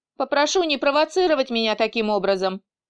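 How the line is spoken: Sharp. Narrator (Russian): резко произнес Фил

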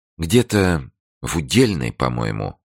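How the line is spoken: Thoughtful. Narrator (Russian): сказала Ирина задумчиво

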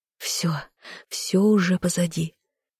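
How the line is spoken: Inner self-soothing mutter. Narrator (Russian): бормотала себе мысленно, пытаясь успокоиться

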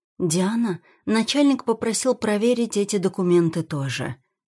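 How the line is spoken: Quiet, apologetic. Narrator (Russian): говорит тихо, почти извиняясь

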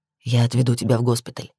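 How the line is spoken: Whisper in ear. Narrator (Russian): шепнул Крис мне на ухо

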